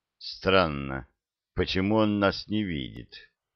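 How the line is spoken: Thoughtful. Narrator (Russian): Задумчиво сказал пилот

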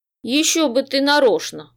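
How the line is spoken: Snorting. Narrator (Russian): хмыкнул Гонорий

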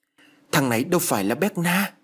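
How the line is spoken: Exclaiming. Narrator (Vietnamese): thốt lên

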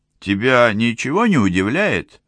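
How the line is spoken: Exclamation. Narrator (Russian): воскликнул Бессур

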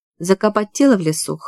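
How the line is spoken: Snorted. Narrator (Russian): хмыкнула Виолетта

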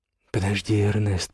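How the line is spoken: Whisper in ear. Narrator (Russian): прошептала ему на ухо Матильда

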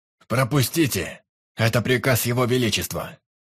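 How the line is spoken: Loud commanding shout. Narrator (Russian): Громко выкрикнул командир гвардейцев

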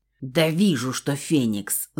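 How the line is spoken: Spat out angrily. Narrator (Russian): Зло выплюнул Нак

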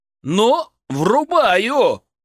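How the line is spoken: Exclaiming. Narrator (Russian): воскликнул я

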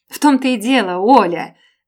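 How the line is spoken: Too-loud exclamation. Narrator (Russian): Воскликнула я слишком громко

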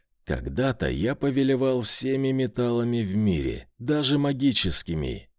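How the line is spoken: Plain. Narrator (Russian): ответил он

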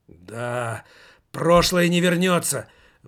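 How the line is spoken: Horrified exclamation. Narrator (Russian): воскликнул Иван Бобылев, с ужасом

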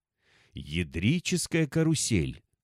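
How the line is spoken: Hoarse exhale. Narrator (Russian): хрипло выдохнул оперативник

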